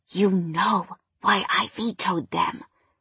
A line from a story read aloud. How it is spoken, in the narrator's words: I whispered